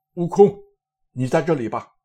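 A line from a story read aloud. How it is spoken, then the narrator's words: Calling out. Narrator (Chinese): 三藏见他发怒，只得折折千千，叫道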